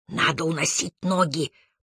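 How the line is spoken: Whisper. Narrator (Russian): прошептал он

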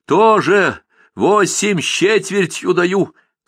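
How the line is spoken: Desperate shout. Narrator (Russian): крикнул Иванка Кочегов, словно в студеную воду прыгнул с закрытыми глазами

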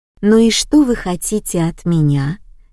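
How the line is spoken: Unexpectedly tender question. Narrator (Russian): Неожиданно ласково поинтересовалась Капитолина Михайловна

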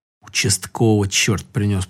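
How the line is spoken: Grandmother's mutter. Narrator (Russian): пробормотала бабушка

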